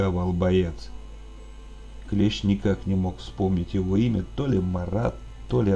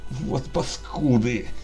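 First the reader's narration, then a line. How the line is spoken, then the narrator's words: Groan through clenched teeth. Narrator (Russian): Сцепил зубы, простонал клещ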